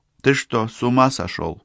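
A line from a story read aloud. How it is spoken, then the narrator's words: Calm question. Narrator (Russian): поинтересовалась спокойно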